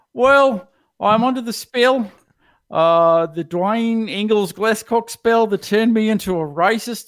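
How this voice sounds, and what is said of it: Put-on Australian accent. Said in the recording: “I've got an Australian accent... I sound a little different”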